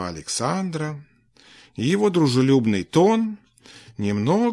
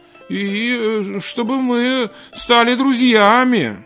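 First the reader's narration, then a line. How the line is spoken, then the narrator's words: Uncertain. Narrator (Russian): добавил неуверенно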